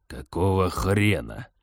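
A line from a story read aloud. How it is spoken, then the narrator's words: Exasperated hiss. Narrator (Russian): наконец прошипел он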